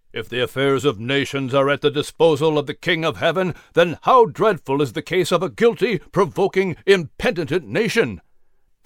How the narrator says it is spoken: Davies exclaimed

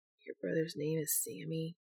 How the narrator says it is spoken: he asked, his voice barely audible

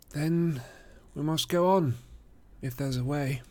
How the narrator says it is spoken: said Frodo with a sigh

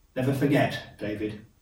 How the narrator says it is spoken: he said

